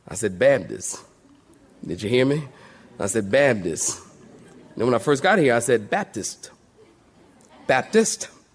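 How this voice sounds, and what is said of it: Put-on North Carolina Southern accent. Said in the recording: “Y'all can tell I'm getting my accent right down here in North Carolina, ain't I? ... If I'm getting it, North Carolinian, say amen.”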